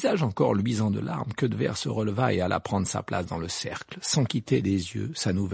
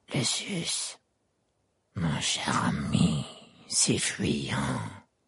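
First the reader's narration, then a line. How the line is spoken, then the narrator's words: Murmur. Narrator (French): murmura-t-il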